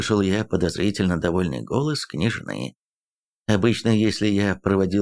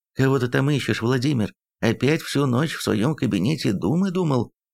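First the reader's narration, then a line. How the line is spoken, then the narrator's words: Affectionate chuckle. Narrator (Russian): Ласково усмехнулась жена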